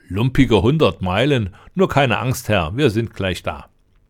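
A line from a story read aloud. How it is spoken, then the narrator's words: Tall man laughing. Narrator (German): lachte der Lange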